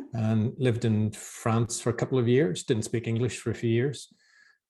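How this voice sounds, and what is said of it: Northern Irish Belfast accent. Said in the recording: “I'm from Belfast originally in Ireland ... I still haven't lost the accent ... the Irish accent”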